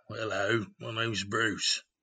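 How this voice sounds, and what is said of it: Put-on Australian accent. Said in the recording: “was going into his, was it Dory? Not the Dory impersonation, but the Sharks. ... Australian.”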